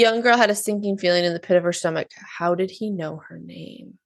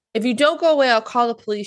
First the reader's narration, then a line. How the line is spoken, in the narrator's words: she shouted